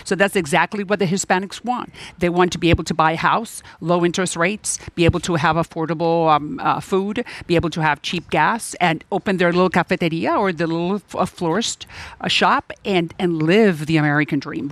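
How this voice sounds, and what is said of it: Noticeable Hispanic accent in English. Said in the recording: “Look at me and look at my accent”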